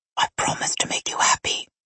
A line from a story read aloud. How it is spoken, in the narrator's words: he whispered